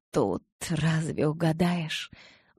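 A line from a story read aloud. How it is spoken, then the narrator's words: Sighing. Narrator (Russian): вздохнула я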